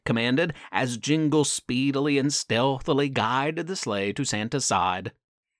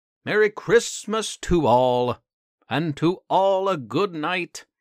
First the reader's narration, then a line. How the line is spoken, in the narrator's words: Santa bellowed